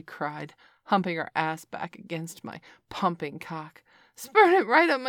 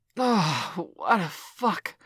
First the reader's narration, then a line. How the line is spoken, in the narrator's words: I gasped